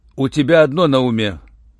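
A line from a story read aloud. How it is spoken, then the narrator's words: Rough reproach. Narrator (Russian): грубо укорил Руальд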